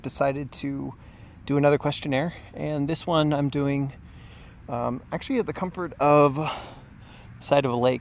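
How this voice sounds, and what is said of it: Slightly out of breath. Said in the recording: “you might hear I'm a little out of breath or my voice is a little distorted ... I just finished like a 12-mile bike ride”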